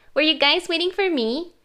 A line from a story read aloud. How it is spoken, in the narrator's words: she chirped unapologetically